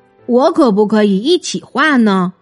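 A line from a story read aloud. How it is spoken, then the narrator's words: Plain. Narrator (Chinese): 小熊问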